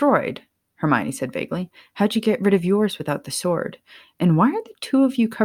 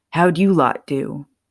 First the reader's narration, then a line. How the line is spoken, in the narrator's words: asked, a chuckle slipping from his throat, followed by several loud coughs